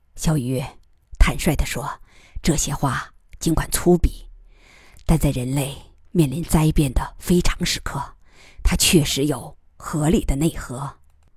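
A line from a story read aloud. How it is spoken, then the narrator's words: Low voice, bitter smile. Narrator (Chinese): 他苦笑着低声对小鱼说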